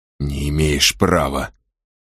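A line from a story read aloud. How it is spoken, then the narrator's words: Hissed. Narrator (Russian): прошипел он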